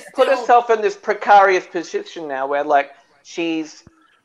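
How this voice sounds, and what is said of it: Odd put-on accent. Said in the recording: “Precarious? What kind of accent is that?”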